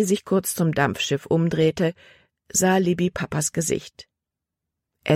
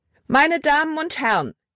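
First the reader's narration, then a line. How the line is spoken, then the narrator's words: Loud call. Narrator (German): rief sie laut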